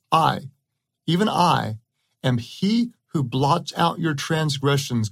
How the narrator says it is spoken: God said

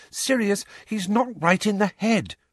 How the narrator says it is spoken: Hermione pleaded

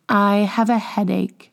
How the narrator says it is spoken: murmured Scrap

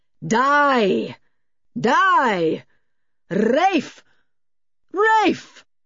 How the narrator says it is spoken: The great voice boomed again and again, seeming to be louder each time

